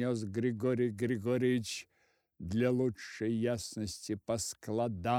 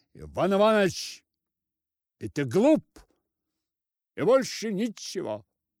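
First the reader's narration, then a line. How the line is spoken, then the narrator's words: Loud. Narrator (Russian): громко сказал Григорий Григорьевич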